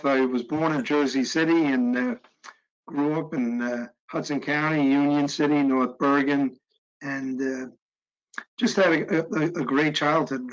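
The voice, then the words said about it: Non-Southern American accent. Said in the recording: “you could probably tell by this accent that I'm not from the Deep South”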